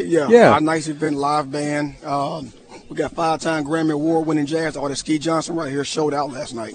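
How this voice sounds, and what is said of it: Slightly hoarse voice. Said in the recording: “You sound great. I know. You're a little hoarse.”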